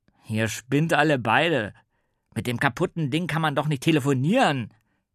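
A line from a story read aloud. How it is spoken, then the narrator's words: Bellowed. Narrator (German): brüllte Torben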